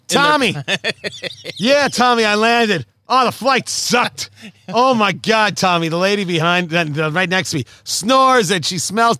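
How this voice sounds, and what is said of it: Put-on Boston accent. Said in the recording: “Was that your Boston accent? ... I guess it was. I tried to channel Ben Affleck at his most douchiness.”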